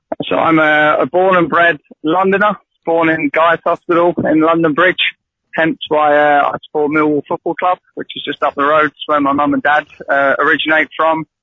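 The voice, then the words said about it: Poor Irish-tinged accent. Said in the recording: “You've got a flipping terrible Irish accent.”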